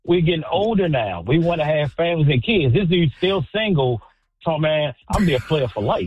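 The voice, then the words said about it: Definite Baltimore accent. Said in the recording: “I love your accent. He's got a definite accent.”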